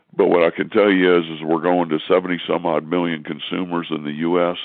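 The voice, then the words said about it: Weak, stuffy congested voice. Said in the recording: “I wish my voice was a little bit stronger ... it's kind of hard to communicate with this stuffiness”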